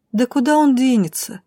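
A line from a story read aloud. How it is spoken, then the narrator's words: Lazy, slightly puzzled. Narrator (Russian): лениво отозвалась Шайни с некоторым недоумением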